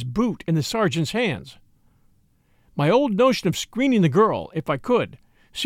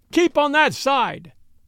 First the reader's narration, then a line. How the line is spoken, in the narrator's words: he shouted